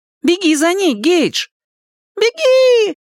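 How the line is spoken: Yelling. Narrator (Russian): завопил Гейдж

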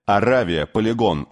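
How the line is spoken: Shout. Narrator (Russian): выкрикнул он

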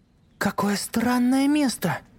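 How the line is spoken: Exclaiming. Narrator (Russian): воскликнула Люси

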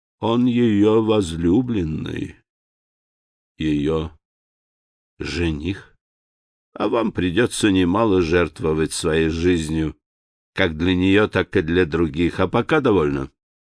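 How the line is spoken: Sad, smiling. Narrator (Russian): Он грустно улыбнулся в ответ и сказал

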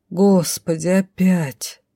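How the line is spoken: Frightened groan. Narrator (Russian): Простонала, с перепугу

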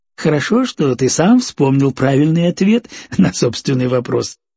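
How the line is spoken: Laughing. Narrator (Russian): рассмеялся торговец

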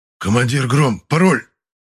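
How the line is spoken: Hoarse wheeze. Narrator (Russian): прохрипел взятый в захват солдат

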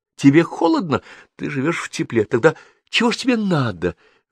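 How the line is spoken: Exclaimed. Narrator (Russian): воскликнула она

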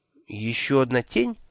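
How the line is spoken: Confused clarifying question. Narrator (Russian): растерянно уточнил я

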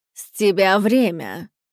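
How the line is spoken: Menacing reminder. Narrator (Russian): напомнила грозно

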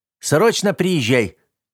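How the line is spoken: Nearly shouting over phone. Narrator (Russian): Чуть не кричали из телефона

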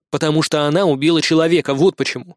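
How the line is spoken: Stern reply. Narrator (Russian): строго ответил я

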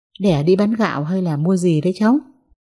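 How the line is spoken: Old woman's smiling question. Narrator (Vietnamese): Bà Thuyết mỉm cười hỏi

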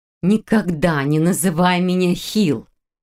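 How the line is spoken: Near growl. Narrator (Russian): почти прорычала Хильда

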